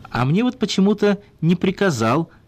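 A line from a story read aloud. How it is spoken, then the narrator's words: Joyful laughter. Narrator (Russian): радостно засмеялся Глухих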